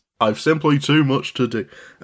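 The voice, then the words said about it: Poorly done put-on accent. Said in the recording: “That's not a good accent”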